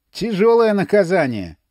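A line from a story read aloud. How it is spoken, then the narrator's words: Mocking remark. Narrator (Russian): насмешливо заметил Крижевский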